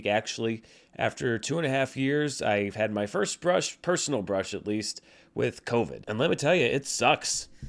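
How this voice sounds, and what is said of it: Sick, unwell-sounding voice. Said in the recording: “as you can probably tell from my voice, it's because I haven't been feeling too great this past week”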